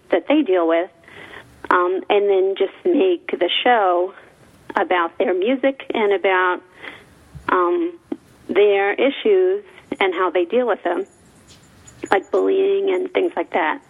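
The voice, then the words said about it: East Coast American accent. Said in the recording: “I can totally tell that you're from the East Coast from your accent.”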